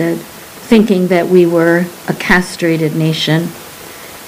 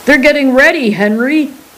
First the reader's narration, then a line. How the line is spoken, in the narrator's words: Sai's voice boomed